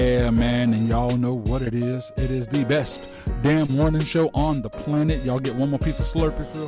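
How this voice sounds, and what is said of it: Usual voice. Nothing is said of it.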